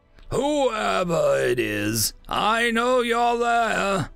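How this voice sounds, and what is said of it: Deep, rumbling, tired male voice. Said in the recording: “His voice was deep, rumbled, and sounded tired.”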